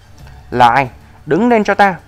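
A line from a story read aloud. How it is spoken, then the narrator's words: Angry. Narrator (Vietnamese): Y tức giận nói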